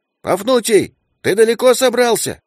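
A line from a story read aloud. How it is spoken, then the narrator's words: Loud call. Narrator (Russian): крикнул Брысь, надеясь, что грызун его услышит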